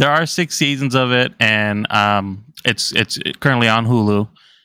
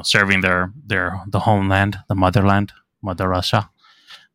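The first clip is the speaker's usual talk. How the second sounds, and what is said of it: Terrible put-on accent. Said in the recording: “that's my terrible accent that I tried to put together”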